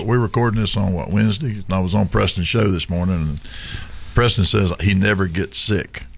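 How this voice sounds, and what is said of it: Strained, worn-out sick voice. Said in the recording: “I'm going to sound like crap on this show today. My voice is bothering me ... my voice is shot”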